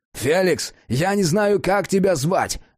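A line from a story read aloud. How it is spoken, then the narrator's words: Yelled. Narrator (Russian): заорал Джек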